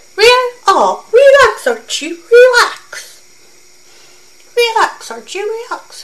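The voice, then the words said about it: Squeaky character voice. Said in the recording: “squeaky-voiced ... I'm trying to do a squeaky voice.”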